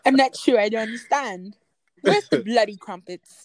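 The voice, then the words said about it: Put-on British accent. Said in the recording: “British accents are hard.”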